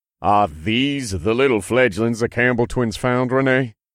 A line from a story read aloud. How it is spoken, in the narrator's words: He asked in a disapproving tone